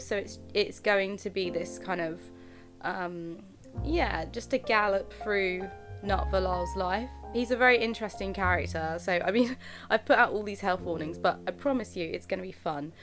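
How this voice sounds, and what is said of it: Congested, slightly odd-sounding voice. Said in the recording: “my voice sounds a little bit funny, I think. I am going through it with hay fever. So, yeah, my voice is going to sound a bit weird.”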